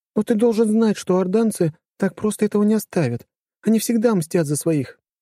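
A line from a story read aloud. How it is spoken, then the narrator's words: Sighing. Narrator (Russian): Она вздохнула и добавила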